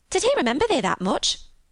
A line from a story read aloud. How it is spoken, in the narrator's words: exclaimed Martha